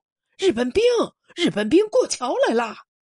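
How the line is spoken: Urgent, terrified shout. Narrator (Chinese): 有人急喊一句，声调恐怖

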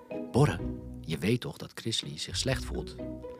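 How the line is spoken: Whisper. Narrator (Dutch): Ze fluisterde tegen Borre, de broer van Chrisley

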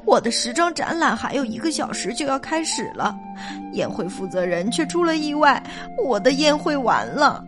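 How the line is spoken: Sobbing. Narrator (Chinese): 索菲亚夫人哭哭啼啼地说

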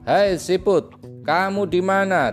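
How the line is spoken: Shouting backward. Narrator (Indonesian): teriaknya ke arah belakang

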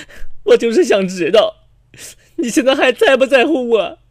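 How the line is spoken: Tearful. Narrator (Chinese): 这个女儿含着眼泪就跟我说

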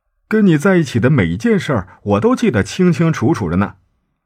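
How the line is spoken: Joking question. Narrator (Chinese): 圣地亚哥…他开玩笑的问

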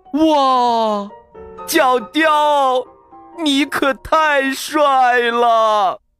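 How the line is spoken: Enraptured exclamation. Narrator (Chinese): 他被角雕犀利的眼神、立体的侧脸给迷住了，情不自禁叫道

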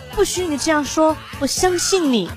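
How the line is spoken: Gentle. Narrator (Chinese): 女人温柔的说

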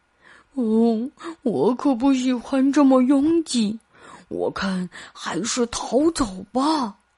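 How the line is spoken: Muttering. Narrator (Chinese): 大熊又开始嘀咕了

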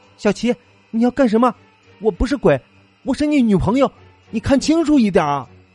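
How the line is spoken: Frightened cry. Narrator (Chinese): 他的女友惊恐的叫着

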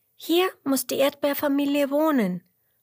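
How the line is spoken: Calling into a hole. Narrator (German): ruft Emmerla und ruft ins Loch hinein

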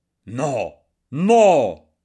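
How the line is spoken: Shout. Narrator (Italian): gridò egli

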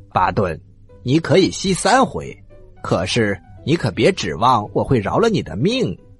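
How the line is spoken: Laughing heartily. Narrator (Chinese): 国王大笑着说

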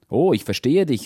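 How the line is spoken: Calling out. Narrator (German): rief sie

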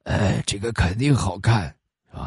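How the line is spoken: Hoarse voice. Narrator (Chinese): 其中一个嗓子沙哑的就说

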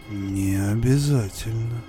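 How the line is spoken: Whisper. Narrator (Russian): прошептал

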